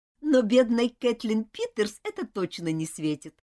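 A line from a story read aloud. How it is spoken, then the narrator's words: Laughing. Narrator (Russian): рассмеялась Элизабет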